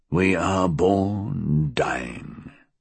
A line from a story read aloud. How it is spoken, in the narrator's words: Reckitt murmured